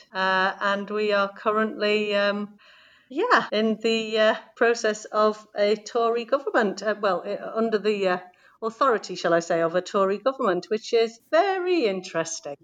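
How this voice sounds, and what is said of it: South Yorkshire English accent. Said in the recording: “I'm really enjoying your accent? ... I'm in Yorkshire. Well, I'm in South Yorkshire. I'm in Sheffield, in the north of England”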